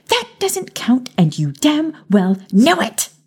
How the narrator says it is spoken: She shrieked

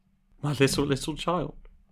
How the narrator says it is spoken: cried Bob

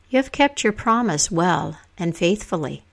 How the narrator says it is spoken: Lady Ragnell said

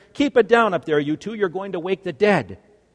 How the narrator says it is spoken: Mom would yell up the stairs

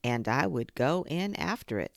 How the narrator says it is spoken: said Pooh

